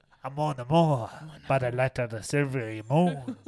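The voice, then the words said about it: Weak put-on French accent. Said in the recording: “I don't even think I got that good of a French accent ... Sorry for butchering your language.”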